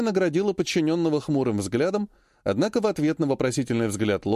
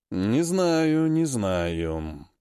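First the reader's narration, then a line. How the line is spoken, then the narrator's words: Drawn-out, doubtful. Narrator (Russian): протянул темный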